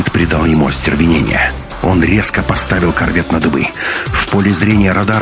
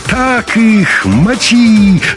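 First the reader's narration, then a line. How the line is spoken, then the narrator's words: Exuberant yelling. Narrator (Russian): задорно вопил Валерка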